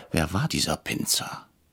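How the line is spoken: Whispering. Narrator (German): flüsterte ich Herrn Brecher zu

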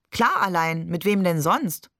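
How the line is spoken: Laughing question. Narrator (German): fragte Barbe und lachte

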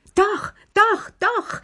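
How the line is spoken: Shout. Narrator (German): schrie Lilli

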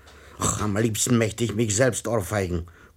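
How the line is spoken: Muttered growling. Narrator (German): knurrte der Herr Rat vor sich hin

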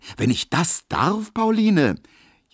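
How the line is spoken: Calling out. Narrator (German): rief Emil Kubinke

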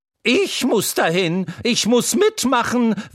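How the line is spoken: Excited horse neighing. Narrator (German): wieherte das Pferd Troubadour und stampfte aufgeregt

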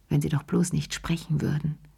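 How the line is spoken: Murmured. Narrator (German): murmelte sie

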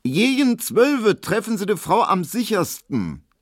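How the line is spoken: Deliberately loud, meant to be overheard. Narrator (German): sie sagte so laut, dass es Emil Kubinke hören musste

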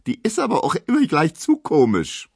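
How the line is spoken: Squeaking. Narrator (German): quiekt Emma

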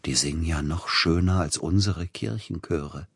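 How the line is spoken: Whisper. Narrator (German): flüsterte Peter Iljitsch Zilotti zu

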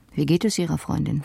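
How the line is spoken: Plain question. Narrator (German): fragte er dann

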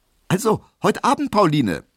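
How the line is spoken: Calling out. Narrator (German): rief er

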